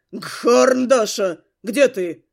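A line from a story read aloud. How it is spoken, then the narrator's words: Thundering voice in mind. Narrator (Russian): в моем сознании прогремело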